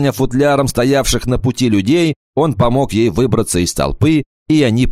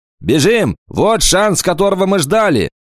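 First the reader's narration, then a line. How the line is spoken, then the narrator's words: Shouting. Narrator (Russian): Кикаха закричал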